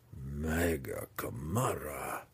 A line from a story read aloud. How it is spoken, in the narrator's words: Belwar breathed